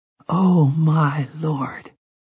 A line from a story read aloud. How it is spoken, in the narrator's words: sighed, but he might have been 1,000 miles away